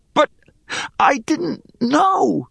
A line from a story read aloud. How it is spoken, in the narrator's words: wheezed